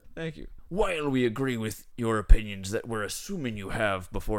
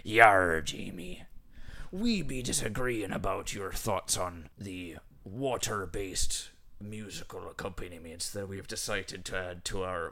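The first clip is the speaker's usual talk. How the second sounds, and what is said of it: Put-on pirate accent. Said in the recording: “pirate. ... It's a pirate accent. I think it's proper.”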